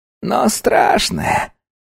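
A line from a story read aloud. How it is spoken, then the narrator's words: Hoarse mutter. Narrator (Russian): хрипло пробормотала Диккенс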